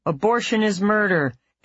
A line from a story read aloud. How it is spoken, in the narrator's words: They are shouting